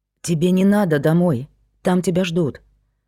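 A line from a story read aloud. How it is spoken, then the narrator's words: Quiet speech. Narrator (Russian): Проговорил он негромко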